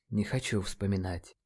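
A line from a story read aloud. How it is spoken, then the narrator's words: Quiet reply. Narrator (Russian): наконец тихо ответил Нейт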